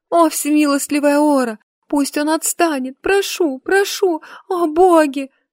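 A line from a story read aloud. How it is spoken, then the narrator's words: Sobbing plea. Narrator (Russian): взмолилась, не сдерживая рыданий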